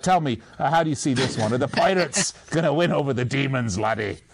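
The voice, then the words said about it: Put-on pirate accent. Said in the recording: “And your Pirate accent's great. If my kids were younger, I'd have you come over for story time.”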